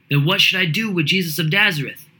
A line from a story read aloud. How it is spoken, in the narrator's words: Pilate shouted to the mob